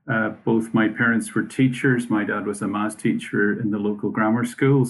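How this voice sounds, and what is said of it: Northern Irish accent. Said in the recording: “your accent has perhaps given part of the answer away ... I'm originally from Omagh in Northern Ireland”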